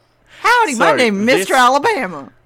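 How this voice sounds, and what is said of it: Put-on Texas-style southern accent. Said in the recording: “I can't really do a southern accent outside of, like, Texas”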